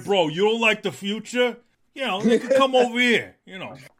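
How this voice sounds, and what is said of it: Bro-ish Phil Spencer impression. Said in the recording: “That your Phil Spencer impersonation? ... That's my Phil Spencer. He's like, he's the bro.”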